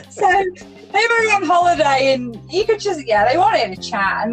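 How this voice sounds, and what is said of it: Chester English accent. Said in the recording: “This is a Chester accent you got there.”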